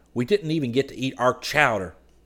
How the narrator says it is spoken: Scotty grumbled

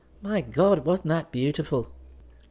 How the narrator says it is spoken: She sighed

